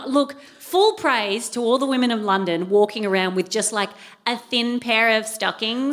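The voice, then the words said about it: Australian accent. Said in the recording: “you're Australian... this is not a local accent”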